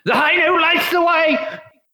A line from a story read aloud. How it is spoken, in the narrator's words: he just yells at the top of his lungs